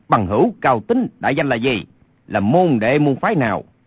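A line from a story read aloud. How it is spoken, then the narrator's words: Furious shout. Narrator (Vietnamese): Lê Sinh lửa giận bốc lên quát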